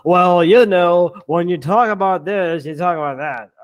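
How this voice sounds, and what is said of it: Imitates a sports commentator's voice. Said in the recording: “my Troy Aikman impression is spot on ... that was spot on. But you need to be a little bit more lazy and like sleep deprived.”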